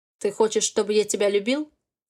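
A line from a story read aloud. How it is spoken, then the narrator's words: Cold question. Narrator (Russian): холодно спрашивает Никита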